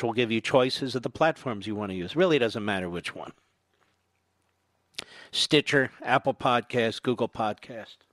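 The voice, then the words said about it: Voice starting to give out. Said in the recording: “I can tell I'm starting to lose my voice a bit here”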